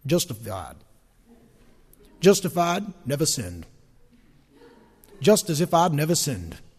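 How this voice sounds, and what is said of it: Imitating Billy Graham's North Carolina accent. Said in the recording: “I like the way Billy Graham says it ... that may not be a very good North Carolina accent”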